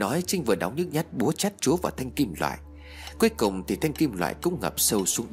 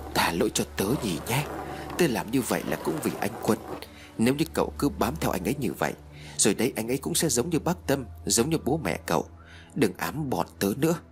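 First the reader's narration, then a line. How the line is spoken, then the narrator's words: Muttering. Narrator (Vietnamese): miệng Trinh lẩm bẩm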